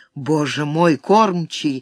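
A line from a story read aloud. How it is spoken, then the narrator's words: Breathless exclamation over noise. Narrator (Russian): выдохнул Баккус, перекрыв гул вопросов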